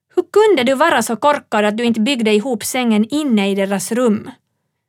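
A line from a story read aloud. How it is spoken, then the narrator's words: Roaring. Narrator (Swedish): Mamma kallade pappa idiot och röt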